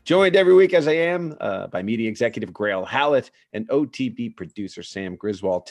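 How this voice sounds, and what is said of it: American accent. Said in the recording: “but with an American perspective and accent, I might add”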